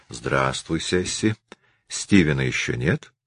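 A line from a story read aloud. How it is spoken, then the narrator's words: Soft, man. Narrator (Russian): Высокий мужчина сказал мягко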